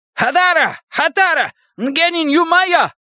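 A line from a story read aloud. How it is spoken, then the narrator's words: Shouting. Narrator (Russian): Кибериец кричал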